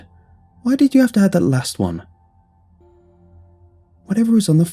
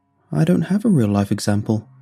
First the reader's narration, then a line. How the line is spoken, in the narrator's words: he said, looking sadly at his feet